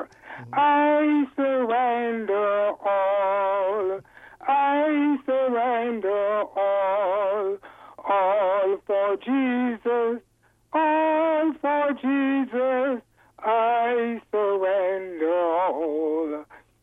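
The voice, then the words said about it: Sings a hymn, poorly. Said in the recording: “Excuse my voice, I'm not a good singer. ... You're right, you're not a good singer. I could tell.”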